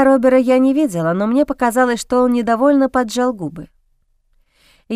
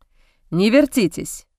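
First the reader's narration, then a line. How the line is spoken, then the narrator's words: Harsh, rough. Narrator (Russian): Жестко, даже несколько грубо прозвучало от Робера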